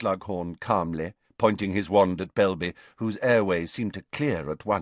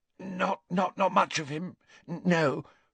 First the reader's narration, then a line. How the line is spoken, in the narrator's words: gasped Belby, his eyes streaming